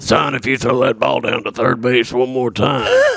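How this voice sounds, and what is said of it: A good impression. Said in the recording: “That was actually a really good impression. ... It was a great impression.”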